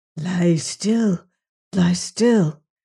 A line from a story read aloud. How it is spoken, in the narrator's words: whispered Otter